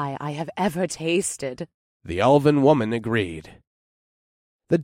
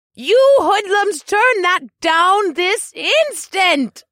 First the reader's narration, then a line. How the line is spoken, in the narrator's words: she shrieked